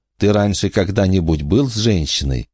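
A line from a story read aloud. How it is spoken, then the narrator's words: Soft question. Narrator (Russian): мягко спросила она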